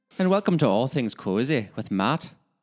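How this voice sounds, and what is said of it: Offensively bad put-on Irish accent. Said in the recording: “Your accent was so funny ... that offensively bad Irish accent”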